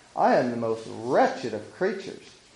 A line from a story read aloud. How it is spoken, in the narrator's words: After dashing in angrily, she exclaimed